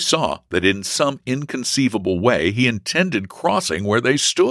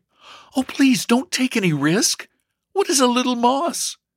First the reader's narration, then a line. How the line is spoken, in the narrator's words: Elsie exclaimed eagerly